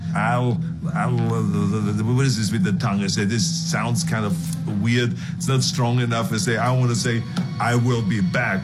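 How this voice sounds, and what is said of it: Speaks English with an accent. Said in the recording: “Because of my accent ... All of this stuff is kind of said with an accent that people just thought this is funny.”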